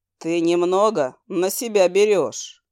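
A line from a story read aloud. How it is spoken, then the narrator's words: Icy demonic inquiry. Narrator (Russian): ледяным тоном поинтересовался демон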